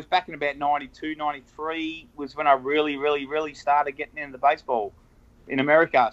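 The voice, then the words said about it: Australian accent. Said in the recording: “we're picking up on your accent. It's in your Twitter handle, Aussie Sox fan. So we take it you're from Australia.”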